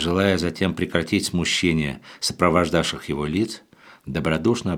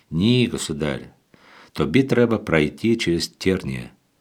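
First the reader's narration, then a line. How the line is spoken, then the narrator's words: Holy fool answering. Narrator (Russian): отвечал на это блаженный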